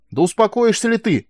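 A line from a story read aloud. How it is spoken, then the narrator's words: Yelling. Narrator (Russian): завопил он на нее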